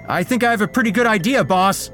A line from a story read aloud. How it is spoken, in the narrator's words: he shouted